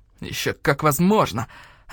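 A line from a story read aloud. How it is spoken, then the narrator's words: Snapping back. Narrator (Russian): огрызнулся Мухтар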